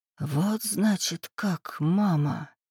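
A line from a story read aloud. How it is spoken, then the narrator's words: Whisper through clenched teeth. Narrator (Russian): прошептала Ольга сквозь стиснутые зубы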